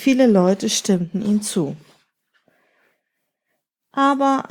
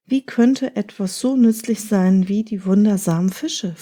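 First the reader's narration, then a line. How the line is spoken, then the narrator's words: Plain question. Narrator (German): fragte Hoshya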